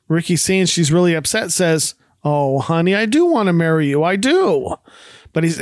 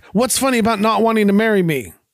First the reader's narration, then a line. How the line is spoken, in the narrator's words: Lucy barks back